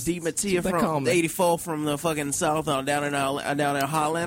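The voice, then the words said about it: Put-on southern accent. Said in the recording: “that's how you do a southern accent ... I think you both suck at it.”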